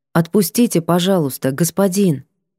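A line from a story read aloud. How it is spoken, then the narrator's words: Calm request. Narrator (Russian): попросила спокойно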